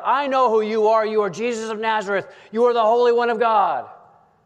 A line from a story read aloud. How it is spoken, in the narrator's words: the man with the unclean spirit blurted out